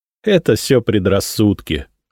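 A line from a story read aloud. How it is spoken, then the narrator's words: Laughing. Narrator (Russian): рассмеялся я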